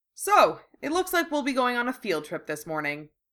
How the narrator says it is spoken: he said cheerfully

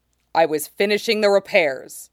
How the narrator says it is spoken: he says curtly

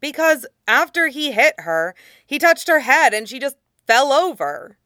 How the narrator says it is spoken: Aang said impatiently

